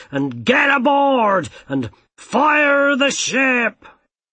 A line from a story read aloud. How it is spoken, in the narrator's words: shouted the captain